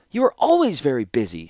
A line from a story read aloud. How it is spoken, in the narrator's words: snapped Kayla